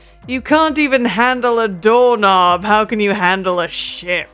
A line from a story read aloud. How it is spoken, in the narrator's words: I'm going to shout out